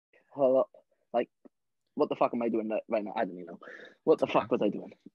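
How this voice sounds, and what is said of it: Welsh accent. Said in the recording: “I'm from Wales. ... I love the Wales accent.”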